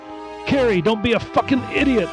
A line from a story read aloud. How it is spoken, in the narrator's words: yelled over it